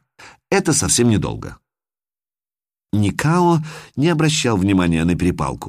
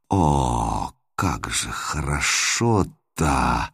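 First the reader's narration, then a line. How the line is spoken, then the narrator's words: Moan through clenched teeth. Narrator (Russian): стиснув зубы, простонала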